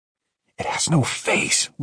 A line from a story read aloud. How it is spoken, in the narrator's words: whispered Mike